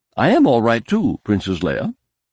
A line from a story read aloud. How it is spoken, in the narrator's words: C-3PO chirped